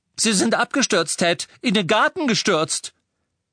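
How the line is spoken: Woman calling out. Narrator (German): rief eine Frau

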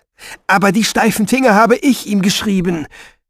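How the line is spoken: Careless outburst. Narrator (German): rief Finoglio, alle Vorsicht vergessend

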